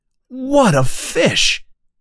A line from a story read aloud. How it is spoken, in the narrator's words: cries Hooper